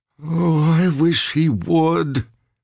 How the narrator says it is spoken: Ricky wailed

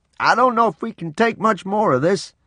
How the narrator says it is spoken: Papa shouted above the wind

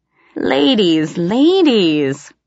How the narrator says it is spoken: he said teasingly

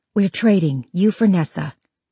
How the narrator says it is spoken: Evelyn whispered back

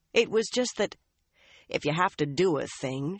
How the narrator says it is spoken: she growled around the twig

